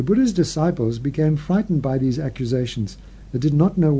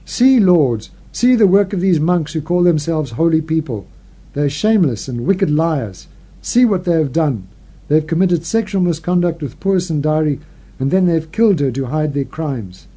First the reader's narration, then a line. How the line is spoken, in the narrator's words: they shouted angrily at the tops of their voices